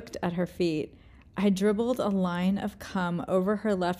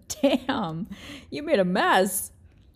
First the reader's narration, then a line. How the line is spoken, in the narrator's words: She giggled again and said